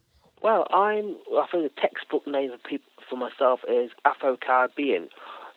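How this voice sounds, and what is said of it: Non-North American accent. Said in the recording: “obviously not from North America by your accent”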